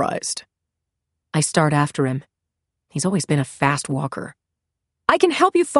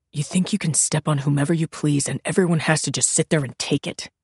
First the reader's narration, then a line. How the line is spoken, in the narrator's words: He hisses